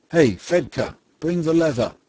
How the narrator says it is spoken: the gentleman shouted to his lad

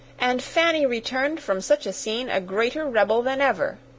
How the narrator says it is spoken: cried Sarah indignantly

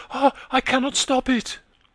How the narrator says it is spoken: she cried

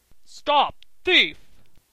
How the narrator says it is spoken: roared Mr

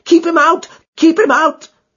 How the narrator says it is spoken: His eyes stared wildly yelled in a voice which I can never forget

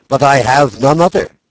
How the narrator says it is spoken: At last I cried out

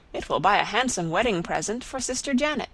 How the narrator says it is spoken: she exclaimed

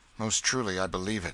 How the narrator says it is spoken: said Miles bitterly

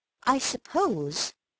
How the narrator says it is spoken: said slowly

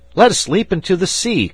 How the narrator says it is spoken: cried Fritz

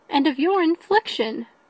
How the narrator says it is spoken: cried Elizabeth, with energy

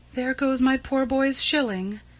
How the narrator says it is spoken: she said to herself sadly

